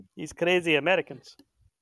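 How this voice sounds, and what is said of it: Bad put-on foreign accent. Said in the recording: “I don't know where that accent came from. ... that was bad.”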